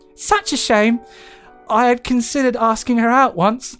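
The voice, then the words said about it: Squeaky high-pitched Cockney voice. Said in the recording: “the squeaky high voice ... Cockney”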